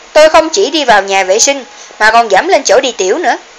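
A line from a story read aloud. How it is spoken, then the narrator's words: Sneering. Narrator (Vietnamese): Trang Duy cười khẩy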